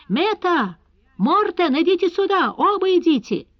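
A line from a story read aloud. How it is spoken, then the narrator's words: Thunderous shout. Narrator (Russian): Он голосом, который мог бы заглушить рев бури, закричал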